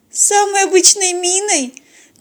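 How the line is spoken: Thin pitiful joke. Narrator (Russian): тонким жалким голосом пошутила Полина

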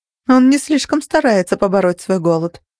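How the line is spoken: Dry remark. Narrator (Russian): сухо заметила я

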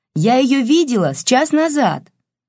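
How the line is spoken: Shout into ear. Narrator (Russian): крикнула Евгения в ухо Бабкину

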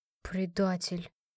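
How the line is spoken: Grumbled. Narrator (Russian): пробурчала

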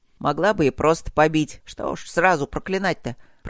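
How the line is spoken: Grumbling. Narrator (Russian): пробурчал Мак

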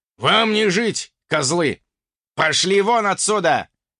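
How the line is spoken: Impatient angry bark. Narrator (Russian): рявкнул утративший терпение ярл

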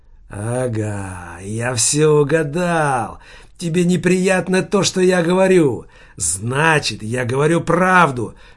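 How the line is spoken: Hoarse rasp. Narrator (Russian): тоже захрипел Манжелли

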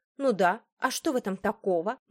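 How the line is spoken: Spiteful smirking tone. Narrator (Russian): Меган зло усмехнулась

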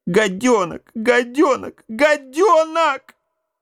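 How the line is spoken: Tearful wailing. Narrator (Russian): вопила в ответ Матрёнка, заливаясь слезами

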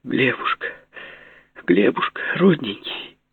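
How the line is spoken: Sobbing. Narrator (Russian): зарыдала она снова

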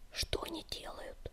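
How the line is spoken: Whisper. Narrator (Russian): прошептал огнегриф

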